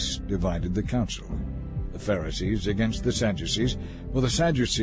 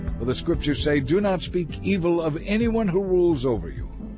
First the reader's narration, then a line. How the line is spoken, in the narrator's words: he shouted